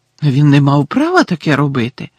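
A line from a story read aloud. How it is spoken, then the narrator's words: Shocked exclamation. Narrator (Ukrainian): вражено вигукнула Герміона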